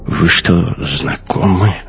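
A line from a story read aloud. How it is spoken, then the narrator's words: Whispered. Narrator (Russian): шепнул Дайне Кох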